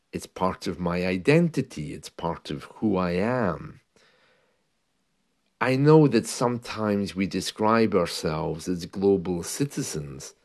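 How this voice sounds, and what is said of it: London English accent. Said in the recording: “I grew up for the most part in the London area, so of course that gave me a very specific kind of accent.”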